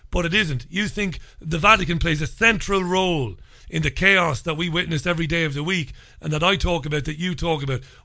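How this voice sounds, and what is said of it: New York Brooklyn accent. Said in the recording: “that New York City, Brooklyn accent of yours”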